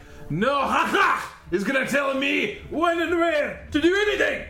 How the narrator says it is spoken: Baron shouts back

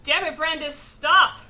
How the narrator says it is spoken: yelling

